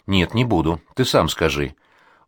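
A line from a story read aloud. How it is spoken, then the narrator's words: Sharp reply. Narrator (Russian): Я резко отвечаю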